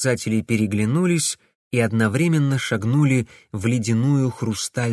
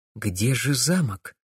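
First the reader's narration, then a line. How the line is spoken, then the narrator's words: Quiet question. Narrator (Russian): тихо спросила Вера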